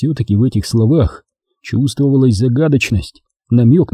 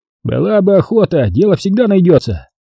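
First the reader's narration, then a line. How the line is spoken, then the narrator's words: Half-joking, deliberately loud. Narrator (Russian): полушутливым тоном нарочито громко ответил он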